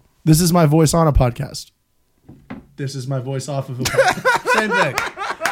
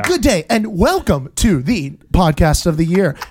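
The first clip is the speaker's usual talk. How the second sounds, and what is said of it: Exaggerated podcast host voice. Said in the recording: “You did your ... voice that you always do in a microphone... doesn't sound like this in real life... he'll talk completely normal”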